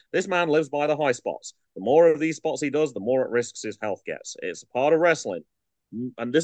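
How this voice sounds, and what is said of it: Usual voice. Nothing is said of it.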